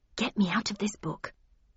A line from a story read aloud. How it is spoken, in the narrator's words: muttered